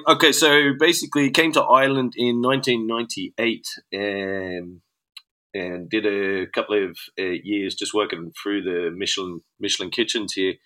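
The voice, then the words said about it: Australian accent, not Dublin. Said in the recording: “your Dublin accent's a little bit off ... Originally from Australia”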